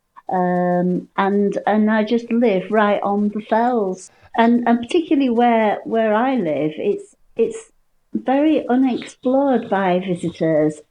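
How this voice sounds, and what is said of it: Yorkshire accent. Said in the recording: “as you probably can tell with my accent, I am a Yorkshire lass.”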